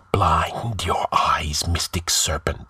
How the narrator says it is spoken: he chanted in a blood-freezing whisper

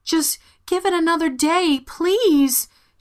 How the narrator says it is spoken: begged

